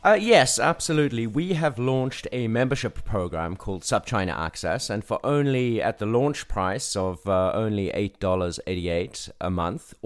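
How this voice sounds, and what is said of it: South African accent. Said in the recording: “in his South African accent.”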